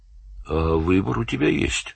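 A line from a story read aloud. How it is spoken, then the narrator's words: Calm question. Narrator (Russian): спокойно спросил Данил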